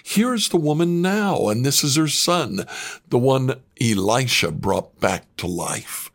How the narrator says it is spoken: Gehazi exclaimed

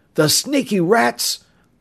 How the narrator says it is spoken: Bud cried out

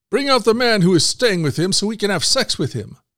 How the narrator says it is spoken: shouting to the old man

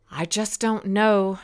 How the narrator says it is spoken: she cried even harder

